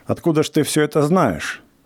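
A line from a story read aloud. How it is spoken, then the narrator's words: Irritated question. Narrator (Russian): спросил он раздраженным голосом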